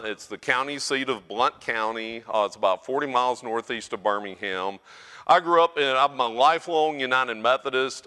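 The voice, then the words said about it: North Alabama Southern US accent. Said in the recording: “my accent is North Alabama ... you might not be able to tell the difference between a Forrest Gump accent and mine”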